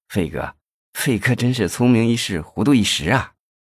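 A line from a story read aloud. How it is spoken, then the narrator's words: Chuckling, low sigh. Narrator (Chinese): 魏显波呵呵的笑了起来，低声的感叹道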